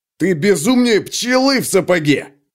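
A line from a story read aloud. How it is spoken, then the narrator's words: Barked over shoulder. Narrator (Russian): рявкнул он через плечо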